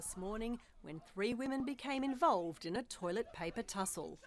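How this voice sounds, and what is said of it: Australian accent. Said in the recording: “from ABC Australia ... Love the accent.”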